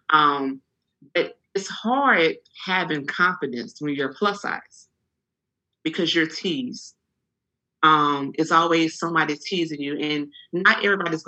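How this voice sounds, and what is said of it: Louisiana accent. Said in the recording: “You're going to get this Louisiana accent.”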